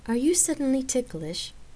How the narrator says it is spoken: Gabrielle questioned with a small laugh

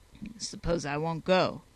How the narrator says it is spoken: growled Hall

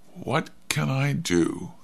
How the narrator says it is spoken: said softly

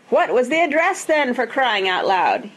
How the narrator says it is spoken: yelled

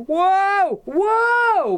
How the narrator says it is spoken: Hal cried

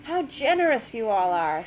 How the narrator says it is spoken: exclaimed

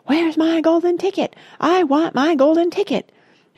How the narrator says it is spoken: yelling in the most disturbing way

